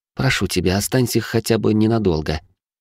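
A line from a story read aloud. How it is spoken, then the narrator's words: Soft plea. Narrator (Russian): мягко сказала она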